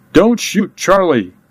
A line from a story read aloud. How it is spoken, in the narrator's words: Kid screamed the words